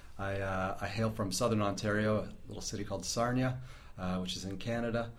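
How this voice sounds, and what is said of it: Not a traditional Kiwi accent. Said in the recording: “You're from New Zealand, but you don't sound to be from New Zealand ... my accent isn't the traditional Kiwi accent.”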